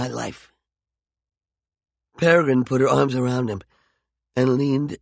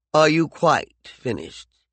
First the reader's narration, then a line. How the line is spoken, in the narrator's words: He asked icily